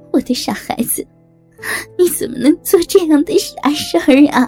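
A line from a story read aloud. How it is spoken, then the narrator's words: Crying. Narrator (Chinese): 妈妈…哭着说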